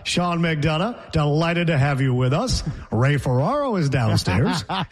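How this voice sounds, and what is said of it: Imitates a sports announcer's voice. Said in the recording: “my impression was well received the other day of Sean McDonough”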